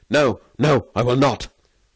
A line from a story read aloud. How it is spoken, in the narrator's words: Varin recoiled in terror and cried